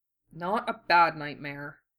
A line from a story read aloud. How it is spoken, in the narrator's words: Wu Fei mumbled